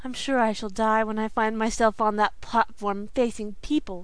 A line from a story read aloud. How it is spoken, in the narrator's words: sighed Sara Ray